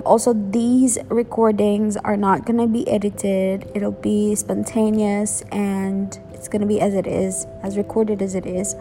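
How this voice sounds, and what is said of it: Filipino-accented English. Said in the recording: “I am from the Philippines. I'm born and raised in the Philippines, so don't expect me to have a good diction ... my accent and all, I've developed it while I'm growing up”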